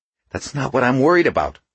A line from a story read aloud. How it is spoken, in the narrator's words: she snapped